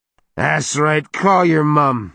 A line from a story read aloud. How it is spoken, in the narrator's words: Eric shouted